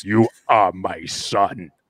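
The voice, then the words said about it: Very deep, back-of-throat imitated voice. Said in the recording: “when I'm doing a very deep voice, I'm dropping my ability to enunciate way in the back of my throat so that at some point I can sound more like James Earl Jones”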